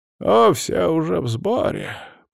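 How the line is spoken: Old man creaking voice. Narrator (Russian): проскрипел старик

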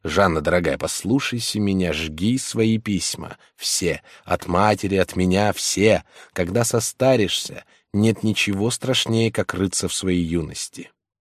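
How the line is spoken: Whisper. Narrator (Russian): он шептал

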